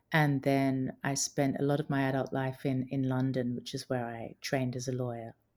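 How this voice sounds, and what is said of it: Mixed Australian and English accent. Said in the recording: “I've got quite a confusing accent as well. It's a little bit Australian, a little bit English ... I think I'm picking up some American now.”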